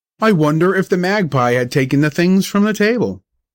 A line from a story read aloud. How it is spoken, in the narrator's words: cried my father